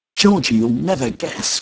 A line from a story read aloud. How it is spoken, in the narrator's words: cried Hermie